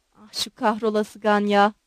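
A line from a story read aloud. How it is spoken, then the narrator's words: Muttered. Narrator (Turkish): diye mırıldandı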